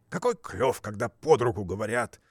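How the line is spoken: Angry reply. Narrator (Russian): отвечал тот сердито

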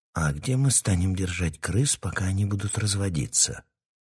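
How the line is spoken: Barely audible question. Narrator (Russian): Текс спросил чуть слышно

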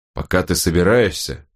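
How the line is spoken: Grumbled. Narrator (Russian): проворчал волкодав

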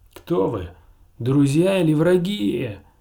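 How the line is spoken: Shouting back. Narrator (Russian): прокричал в ответ черный Лорин

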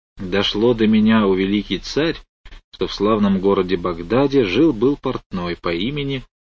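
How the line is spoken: Muttering. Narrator (Russian): бормоча

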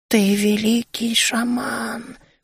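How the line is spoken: Whispered again. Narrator (Russian): уже в который раз прошептал он

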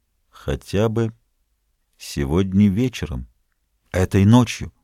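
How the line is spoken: Very quiet. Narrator (Russian): Он ответил очень тихо

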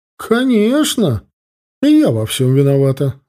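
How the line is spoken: Unconvincingly indignant old woman. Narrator (Russian): воскликнула возмущенно бабуля, но не очень убедительно возмутилась

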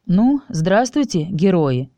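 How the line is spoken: Exaggeratedly cheerful. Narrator (Russian): преувеличенно бодро сказал он

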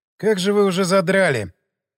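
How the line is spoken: Sorrowful sigh. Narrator (Russian): горестно вздохнул Шумов

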